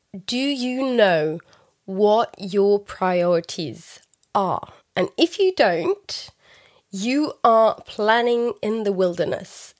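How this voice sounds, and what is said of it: Voice affected by a cold. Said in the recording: “excuse my voice for this recording. I have had a cold that's been going on for so many days now”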